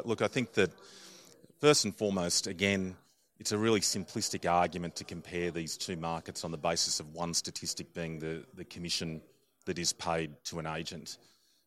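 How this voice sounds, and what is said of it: Australian accent. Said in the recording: “You mentioned you're Australian. We can hear it in your accent too.”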